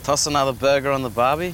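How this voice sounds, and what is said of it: Speaks with a noticeable accent. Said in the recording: “I love his accent, man.”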